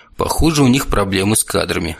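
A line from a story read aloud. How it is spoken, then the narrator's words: Snort under breath. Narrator (Russian): хмыкнул про себя Кейтон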